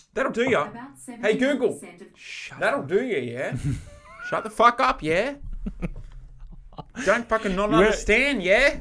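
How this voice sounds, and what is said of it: Mixed British and Australian accent. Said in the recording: “You went back to your pommy fucking roots then ... a little bit of wog, a little bit of British, a little bit of bogan”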